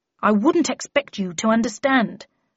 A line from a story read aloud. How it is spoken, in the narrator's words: replied Tweed crossly